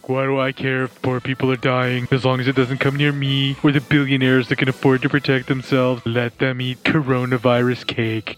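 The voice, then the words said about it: Imitates another person's voice. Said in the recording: “a pretty dead-on impression ... that good of an impression ... Trump impressions”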